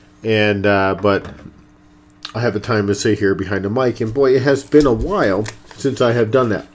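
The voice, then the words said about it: Stuffy, congested voice. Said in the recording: “excuse my voice today as I'm actually have a bit of a cold ... still nonetheless a little stuffy”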